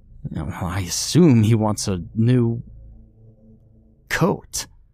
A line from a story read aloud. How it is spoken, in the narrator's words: I said through clenched teeth